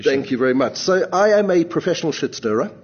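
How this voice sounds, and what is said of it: South African accent. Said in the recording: “I'm always a South African ... So I haven't lost the accent, though.”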